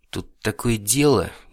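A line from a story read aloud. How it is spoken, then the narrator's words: Hesitant beginning. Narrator (Russian): неуверенно начал он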